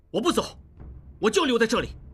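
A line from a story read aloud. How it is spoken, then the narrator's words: Furious. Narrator (Chinese): 应季怒气冲冲地说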